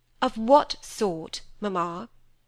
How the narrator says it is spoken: said Cynthia, sharply

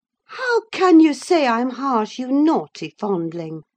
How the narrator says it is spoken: cried the mistress, amazed at the unreasonable assertion

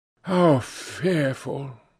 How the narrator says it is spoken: muttered, a shudder ran through him

